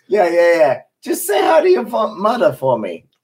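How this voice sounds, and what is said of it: Weak attempt at Boston accent. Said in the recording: “You don't have the accent, though? Oh, well, you can get it. ... Man, you barely got that out. You barely did that.”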